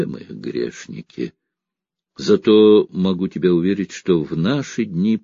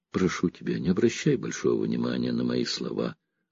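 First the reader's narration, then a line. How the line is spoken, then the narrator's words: Relaxed voice. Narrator (Russian): расслабленным голосом произнес Готье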